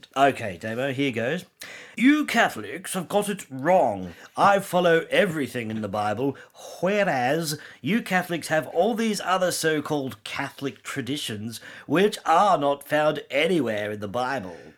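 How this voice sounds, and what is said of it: Strong put-on British accent. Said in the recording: “put on a strong British accent so you sound really intelligent”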